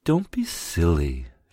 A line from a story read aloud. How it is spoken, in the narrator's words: she cooed